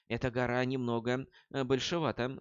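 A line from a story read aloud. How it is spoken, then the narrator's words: Sighing. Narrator (Russian): вздохнула молния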